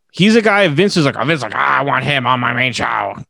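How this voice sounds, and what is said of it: Imitates another person's voice. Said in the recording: “that was my bad Vince impression”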